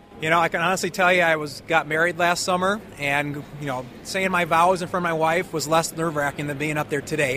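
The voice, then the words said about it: Wisconsin accent with long vowels. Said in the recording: “Your accent. Where's that accent from? ... Part Alabama, but mostly Wisconsin farm kid ... the long O's you're talking about and the long vowels, it's definitely a Wisconsin accent.”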